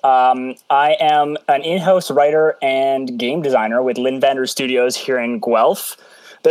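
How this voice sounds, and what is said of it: Canadian accent. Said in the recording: “I love the Canadian accent. ... her accent was charming, and so is yours.”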